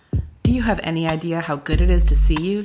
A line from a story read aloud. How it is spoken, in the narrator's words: She asked, her voice husky